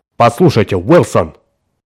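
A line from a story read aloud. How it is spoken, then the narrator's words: Sharp reply. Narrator (Russian): резко ответил Браун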